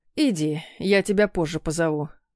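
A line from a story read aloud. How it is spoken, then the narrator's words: Sighing agreement. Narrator (Russian): вздохнув, подтвердил Любимов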